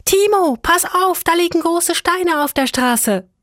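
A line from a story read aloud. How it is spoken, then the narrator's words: Loud call backward. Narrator (German): sie rief laut nach hinten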